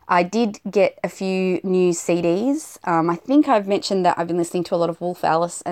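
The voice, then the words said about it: Rushed, hurried speech. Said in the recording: “You can probably hear in my voice I'm rushing it a little bit”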